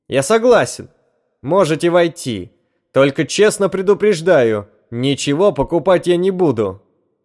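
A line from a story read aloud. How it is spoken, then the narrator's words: Shout. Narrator (Russian): он крикнул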